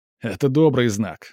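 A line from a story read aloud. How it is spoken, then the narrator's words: Laughing. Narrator (Russian): смеялся Роман Иванович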